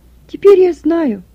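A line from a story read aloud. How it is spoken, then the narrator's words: Joyful voice. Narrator (Russian): произнесла Екатерина радостным голосом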